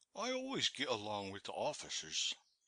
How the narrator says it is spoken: he remarked to me in a confidential tone

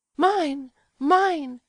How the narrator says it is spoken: she cried

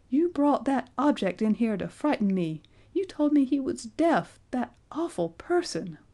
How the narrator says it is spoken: cried Betty

